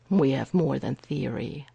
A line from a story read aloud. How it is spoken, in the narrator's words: Errol says grimly